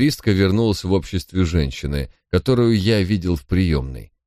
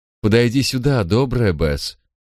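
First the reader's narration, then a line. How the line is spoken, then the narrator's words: Warm, friendly queen. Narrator (Russian): произнесла королева самым приветливым тоном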